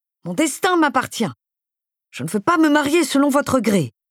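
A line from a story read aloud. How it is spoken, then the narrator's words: Exclaimed. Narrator (French): s'écria-t-elle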